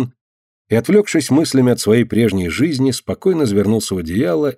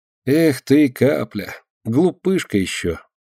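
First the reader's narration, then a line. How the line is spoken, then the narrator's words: Affectionate smile. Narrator (Russian): ласково улыбнулся Ленька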